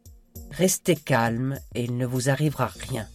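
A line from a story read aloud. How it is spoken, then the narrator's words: Plain. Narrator (French): lui dit Kit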